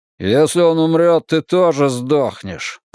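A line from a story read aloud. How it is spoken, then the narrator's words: Grumbling mutter. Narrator (Russian): пробурчал один из них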